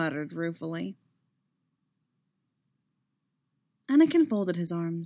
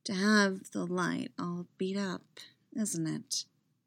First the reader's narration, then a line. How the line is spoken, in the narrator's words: Anakin said slowly